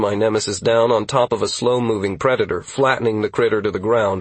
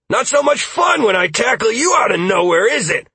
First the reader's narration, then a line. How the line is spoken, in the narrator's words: I shouted at the beast